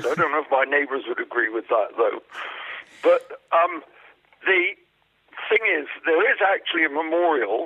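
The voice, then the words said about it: English accent. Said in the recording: “Is that an English accent I hear there? ... Oh, indeed I do, yes.”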